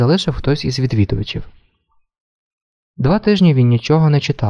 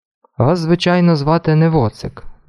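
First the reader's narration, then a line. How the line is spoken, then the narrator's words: Grumble. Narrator (Ukrainian): буркнув він нарешті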